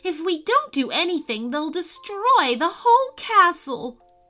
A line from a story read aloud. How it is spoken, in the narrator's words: cried Cordelia